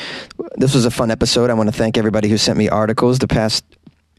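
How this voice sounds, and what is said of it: Usual voice. Nothing is said of it.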